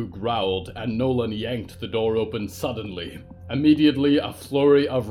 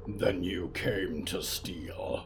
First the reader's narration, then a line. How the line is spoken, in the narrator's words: Riku growled